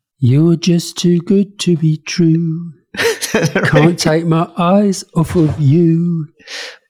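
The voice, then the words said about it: Singing in a Priti Patel accent. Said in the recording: “Try to sing it for us in a Priti Patel accent then.”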